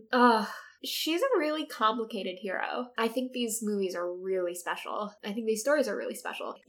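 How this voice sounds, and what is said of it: Sick, flu-affected voice. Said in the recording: “I'm also like sick with the flu right now. ... If you can hear in my voice.”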